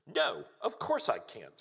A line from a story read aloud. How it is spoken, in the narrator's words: snapped Susan